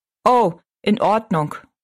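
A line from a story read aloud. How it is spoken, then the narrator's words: Plain. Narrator (German): sagte ihr Vater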